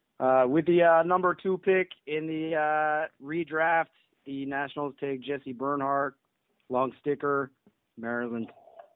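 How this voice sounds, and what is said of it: Put-on Canadian accent. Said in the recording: “That was my Canadian accent.”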